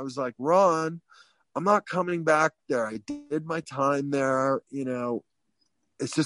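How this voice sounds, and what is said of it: Usual voice. Nothing is said of it.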